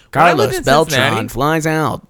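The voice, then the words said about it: Imitates a baseball announcer's voice. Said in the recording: “I'm sure it's a great impression ... I don't think it is ... it's garbage ... I think it's trash”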